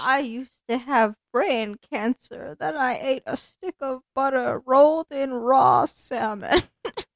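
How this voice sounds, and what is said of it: Jordan Peterson impression. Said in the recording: “you can do a Jordan Peterson impression”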